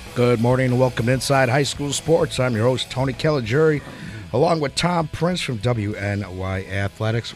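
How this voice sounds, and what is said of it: Sick, congested-sounding voice. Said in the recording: “Please excuse my voice. I am still fighting this cold.”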